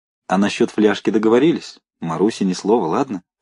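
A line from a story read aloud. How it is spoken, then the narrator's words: Laughing whisper. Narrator (Russian): смеющимся шепотом сказал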